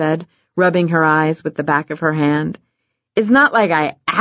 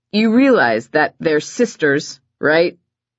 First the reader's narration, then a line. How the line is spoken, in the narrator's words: Levi said, his voice getting tighter